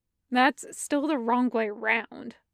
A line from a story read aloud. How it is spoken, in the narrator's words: Fives mutters